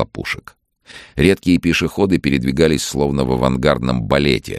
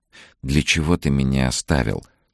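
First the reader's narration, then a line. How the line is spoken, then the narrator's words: Whisper. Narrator (Russian): шептала она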